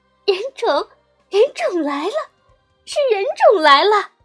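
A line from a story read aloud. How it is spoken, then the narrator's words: Ecstatic loud clamoring. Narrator (Chinese): 欣喜若狂状，只高声嚷嚷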